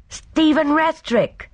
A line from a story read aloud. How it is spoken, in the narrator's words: exclaimed Sergeant Lake joyfully